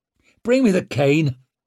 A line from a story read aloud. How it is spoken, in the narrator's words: he snapped at Durand